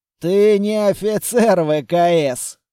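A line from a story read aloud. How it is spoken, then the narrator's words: Scoffing snort. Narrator (Russian): фыркнул Айден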